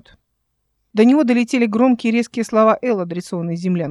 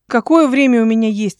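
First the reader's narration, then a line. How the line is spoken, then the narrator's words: Plain question. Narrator (Russian): спросила она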